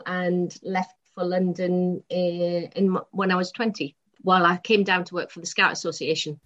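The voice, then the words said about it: Newcastle English accent. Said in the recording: “Can tell by the accent, or well, you should be able to. I'm from Newcastle originally”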